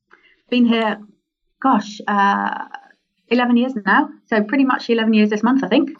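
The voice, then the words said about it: English accent. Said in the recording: “Do I detect a little bit of a UK accent just then, even though you're based in Australia? ... I've definitely still got my English one ... you can definitely pick it up”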